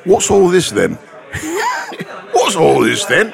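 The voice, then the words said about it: Put-on Cockney accent. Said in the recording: “dialect ... You want to hear Cockney?”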